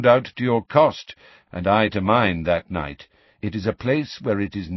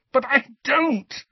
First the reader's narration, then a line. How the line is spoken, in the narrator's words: said Harry in a strangled voice